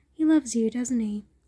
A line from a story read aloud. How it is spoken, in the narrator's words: chuckled